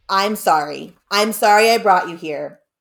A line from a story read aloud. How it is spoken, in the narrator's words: Dad said